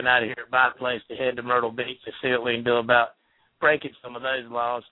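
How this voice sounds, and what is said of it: Southern US accent. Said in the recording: “He's got an awesome accent... He's in South Carolina right now... That explains the accent.”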